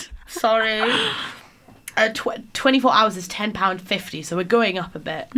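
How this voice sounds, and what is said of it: Northern English accent. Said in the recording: “I was really struggling with your ... Northern accent.”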